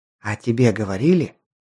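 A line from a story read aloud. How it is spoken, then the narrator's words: Whispered reply. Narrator (Russian): прошептала в ответ толстушка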